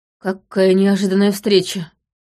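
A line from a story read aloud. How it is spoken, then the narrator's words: Wooden, flat voice. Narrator (Russian): деревянным голосом произнес молодой гвардеец в капитанском чине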